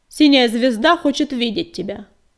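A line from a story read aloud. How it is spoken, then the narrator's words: Loud shout. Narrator (Russian): громко крикнул он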